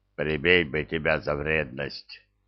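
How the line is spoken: Grumbling. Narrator (Russian): пробурчал Зырк

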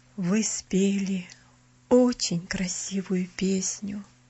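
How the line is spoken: Affectionate. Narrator (Russian): сказал он ласково

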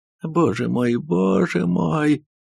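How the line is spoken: Sobbing. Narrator (Russian): зарыдала консульша

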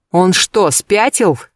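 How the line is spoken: Barked. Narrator (Russian): рявкнула Агатка

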